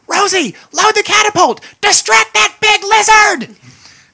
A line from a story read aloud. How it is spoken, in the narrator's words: he's going to shout